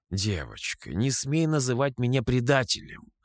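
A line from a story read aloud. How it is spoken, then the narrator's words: Calm reply. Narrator (Russian): спокойно ответил я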